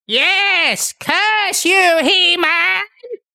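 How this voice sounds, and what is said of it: Cartoon villain character voice. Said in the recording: “hear my Skeletor impression? ... that's pretty good ... I'd say it was on the money.”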